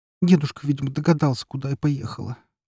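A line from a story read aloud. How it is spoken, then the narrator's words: Glum. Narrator (Russian): уныло ответила она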